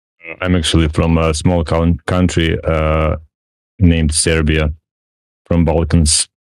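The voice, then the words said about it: Deep voice with Serbian accent. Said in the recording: “deep voice you have there ... And that accent.”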